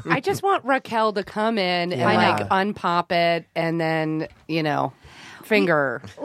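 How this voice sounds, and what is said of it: Imitates another person's voice. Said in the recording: “I did an impression of Arden.”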